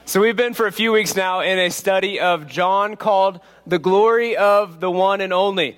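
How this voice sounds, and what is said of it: Slightly off, congested voice. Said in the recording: “my voice sounds a little off. I've been battling a head cold all week”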